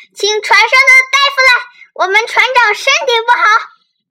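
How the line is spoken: Shrieking. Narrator (Chinese): 船长尖叫起来

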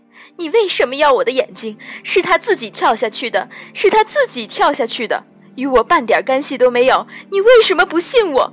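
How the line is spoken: Pained then sneering. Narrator (Chinese): 他目光沉痛，继而冷笑

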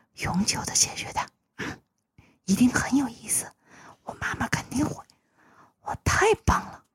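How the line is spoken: Whispering in ear. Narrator (Chinese): 阿加莎开始贴在尤尼斯的耳朵上，小声的说起来

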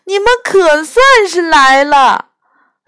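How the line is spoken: Crying and shouting. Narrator (Chinese): 我哭着喊着说

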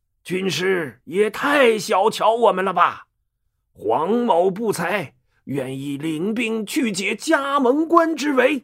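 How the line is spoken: Furious loud old general. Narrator (Chinese): 老将黄忠给气炸了，大声说

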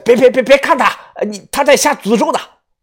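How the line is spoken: Fierce old woman shouting. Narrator (Chinese): 老太婆 脸色狰狞，大声对我喊着我听不懂的藏文

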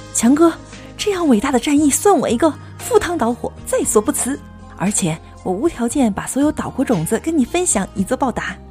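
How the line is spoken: Eager shout. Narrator (Chinese): 宋小军马上 喊着

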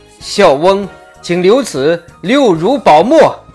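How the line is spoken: Loud, after a long breath. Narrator (Chinese): 他吐出一口长气 高声说

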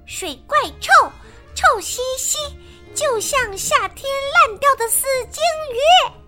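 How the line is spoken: Shouting. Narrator (Chinese): 他又喊道

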